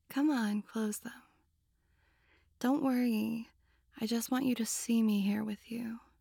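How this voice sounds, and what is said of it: Seductive, sexy voice. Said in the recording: “the seductive sound of my sexy voice.”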